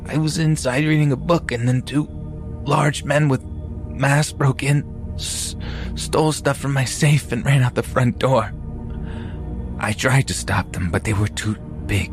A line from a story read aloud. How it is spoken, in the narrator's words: In a weak voice, the man said